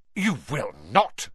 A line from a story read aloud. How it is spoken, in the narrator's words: snapped Mrs